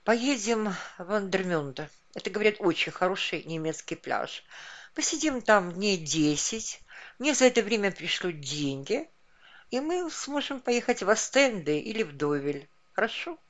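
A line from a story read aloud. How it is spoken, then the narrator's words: Weary agreement. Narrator (Russian): Наташа устало согласилась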